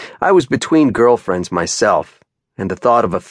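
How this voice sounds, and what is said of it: Usual voice. Nothing is said of it.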